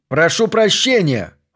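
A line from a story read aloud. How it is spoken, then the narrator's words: Loud bark. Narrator (Russian): гаркнул Смитбек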